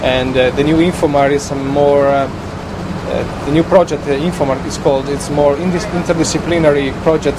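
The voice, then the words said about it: Italian-accented English. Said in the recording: “Judging by your accent and your name, you're not originally from Ireland. ... I'm from Italy”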